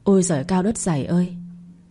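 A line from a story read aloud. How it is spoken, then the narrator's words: Shaken muttering. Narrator (Vietnamese): Mẹ chồng tôi nghe vậy liền lảo đảo dựa vào tường lẩm bẩm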